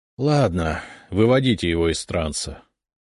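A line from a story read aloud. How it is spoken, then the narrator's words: Disappointed sigh. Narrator (Russian): разочарованно вздохнул Зотов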